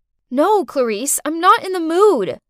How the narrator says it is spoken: I shouted

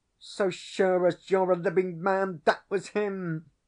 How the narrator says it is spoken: exclaimed Tom Wyndsour, his very nose growing pale, and his eyes almost starting out of his head

